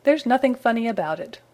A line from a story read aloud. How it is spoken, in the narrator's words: retorted Spooky